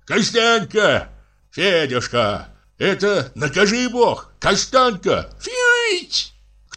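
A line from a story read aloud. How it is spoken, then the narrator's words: Child and man calling loudly. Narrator (Russian): два голоса, один детский, другой мужской, громко позвали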